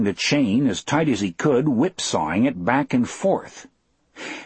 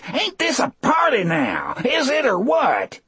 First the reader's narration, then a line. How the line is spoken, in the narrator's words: Still screaming and laughing